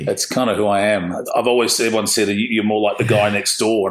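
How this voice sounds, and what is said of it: Strong Australian accent. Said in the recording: “your accent is a lot more Aussie than mine.”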